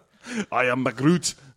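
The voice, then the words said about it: Unconvincing put-on Scottish accent. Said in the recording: “that accent, that not at all Scottish accent”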